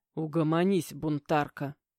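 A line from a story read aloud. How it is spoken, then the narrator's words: Quiet, curt. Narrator (Russian): тихо бросил Игнат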